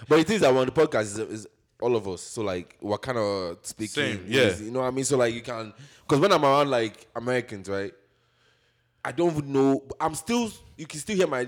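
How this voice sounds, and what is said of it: Nigerian accent, somewhat Americanized. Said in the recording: “You can still hear my Nigerian accent, but like at the same time, it's still Americanized”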